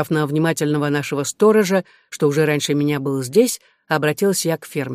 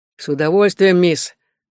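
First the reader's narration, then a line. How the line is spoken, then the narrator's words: Pleased chuckle, man. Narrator (Russian): довольно хмыкнул мужчина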